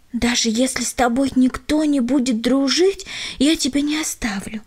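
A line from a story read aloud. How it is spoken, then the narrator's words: Parting whisper. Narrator (Russian): шепнула она напоследок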